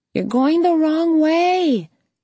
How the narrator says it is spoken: someone shouted as they passed

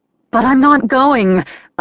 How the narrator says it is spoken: I wailed

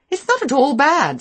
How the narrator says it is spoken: said Beatrice warmly

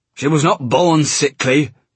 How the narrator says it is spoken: he barked

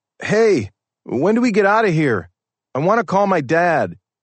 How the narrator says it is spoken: one of the three captives yells out

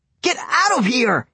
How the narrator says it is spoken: I yelled at him

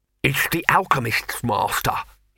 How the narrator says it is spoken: he panted

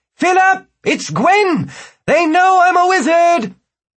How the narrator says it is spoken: yelled

